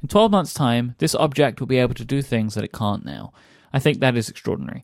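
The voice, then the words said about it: Slowed British voice, imitates another person. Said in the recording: “having a British accent read it is better ... I slowed it down ... I wanted to just slow it down just a touch so I could try and get a bit of Johnny in it.”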